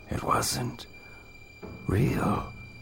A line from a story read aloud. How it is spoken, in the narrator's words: Counselor Hutton muttered to himself